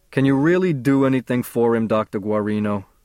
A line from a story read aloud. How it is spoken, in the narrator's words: says Matt